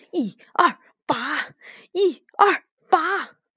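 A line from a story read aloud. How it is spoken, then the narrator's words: Old woman shouting along. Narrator (Chinese): 老奶奶也跟着他一起喊道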